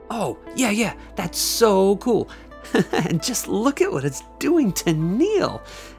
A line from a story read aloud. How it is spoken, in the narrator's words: Nikki said with a laugh in her voice